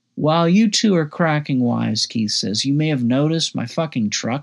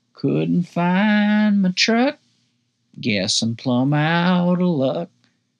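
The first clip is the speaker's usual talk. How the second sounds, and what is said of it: Sung country drawl. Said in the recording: “I start singing in a country drawl.”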